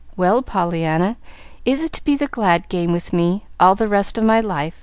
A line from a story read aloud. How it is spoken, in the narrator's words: asked the man gently